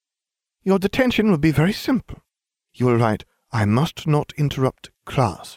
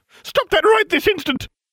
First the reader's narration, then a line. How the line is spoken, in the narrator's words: Umbridge shrieked